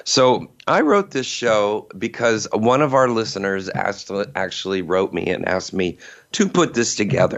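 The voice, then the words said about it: Hoarse, nearly gone voice. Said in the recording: “my voice is almost gone”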